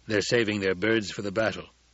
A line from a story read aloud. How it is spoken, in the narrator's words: Stilgar said